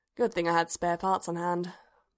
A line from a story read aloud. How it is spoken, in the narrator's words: Bodhi sighed